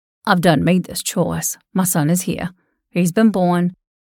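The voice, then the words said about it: Low voice. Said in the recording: “he said in a low voice”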